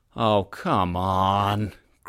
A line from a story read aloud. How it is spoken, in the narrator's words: Klaus groaned